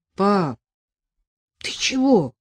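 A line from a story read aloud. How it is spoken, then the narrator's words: Frightened question from nearby. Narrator (Russian): совсем рядом испуганно спросил Иван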